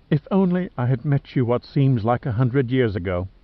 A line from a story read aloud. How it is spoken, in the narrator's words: whispered with a catch in her voice